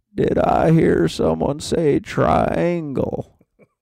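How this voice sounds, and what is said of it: Poor impression of the President. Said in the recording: “Mr. President ... it's just not a good impersonation”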